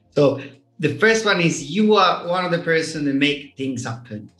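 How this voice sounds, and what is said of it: Noticeable accent, speaking slowly. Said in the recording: “I'm going to speak slow because I think getting my accent is a challenge”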